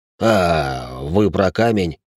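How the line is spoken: Hasty mutter. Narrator (Russian): поспешно буркнул Рэй

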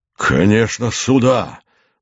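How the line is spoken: Exclaimed. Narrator (Russian): воскликнул Суходольский

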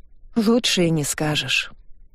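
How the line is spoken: Sighing. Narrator (Russian): вздохнув, кивнула

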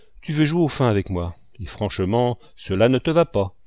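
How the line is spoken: Firm. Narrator (French): dit-il d'une voix ferme

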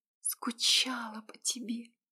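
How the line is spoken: Breathed against lips. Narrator (Russian): Выдохнула я ему в губы

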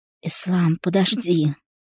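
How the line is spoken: Weak, uncertain whisper. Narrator (Russian): Шепчу, но мой голос звучит слабо, неуверенно

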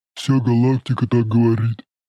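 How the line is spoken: Booming rumble. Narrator (Russian): прогудел сосед Шороха

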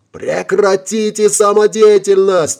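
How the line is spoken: Frantic shriek. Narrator (Russian): истошно завизжал майор Волович

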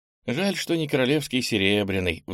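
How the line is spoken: Sighing. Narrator (Russian): вздохнула Ира

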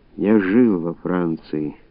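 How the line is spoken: Quiet speech. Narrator (Russian): Князь Борисов тихо сказал

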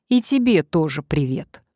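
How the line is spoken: Snorting. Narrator (Russian): фыркнула Надежда

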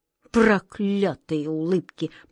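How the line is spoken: King muttering through gritted teeth. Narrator (Russian): процедил сквозь зубы король

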